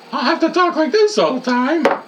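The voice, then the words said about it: High-pitched falsetto voice. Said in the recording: “falsetto”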